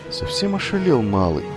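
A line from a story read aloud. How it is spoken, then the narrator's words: Old woman's indifferent mutter. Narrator (Russian): пробормотала старая повариха, равнодушно наблюдавшая за происходящим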